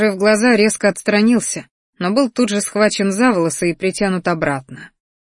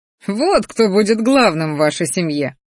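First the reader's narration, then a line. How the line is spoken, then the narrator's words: Pleased snort. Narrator (Russian): довольно хмыкнул Рахтар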